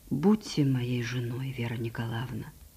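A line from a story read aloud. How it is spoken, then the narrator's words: Quiet tender speech. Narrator (Russian): И тихо и ласково сказал Аркадий Сергеевич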